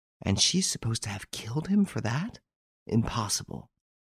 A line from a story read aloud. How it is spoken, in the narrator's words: Hortense whispered